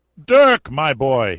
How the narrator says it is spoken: fairly shouted

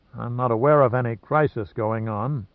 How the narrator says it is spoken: muttered Gunn wearily

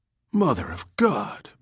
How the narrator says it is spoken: breathed the cop

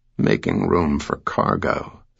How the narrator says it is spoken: Sam muttered to himself

